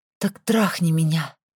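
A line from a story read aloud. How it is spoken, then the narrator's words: Breathless exhale. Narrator (Russian): Выдохнула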